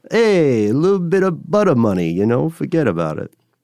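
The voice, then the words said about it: Bad Brooklyn mafia-style accent. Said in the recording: “that sounds like a mafia term ... terrible accent ... Like a Brooklyn thing? ... like a, you know, forget about it, Brooklyn, Jersey.”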